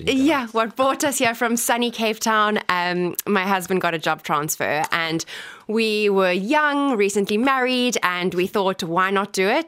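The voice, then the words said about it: South African accent. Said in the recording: “by your accent, I can tell you're South African.”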